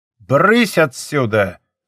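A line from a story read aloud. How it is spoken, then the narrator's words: Growling. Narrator (Russian): прорычал он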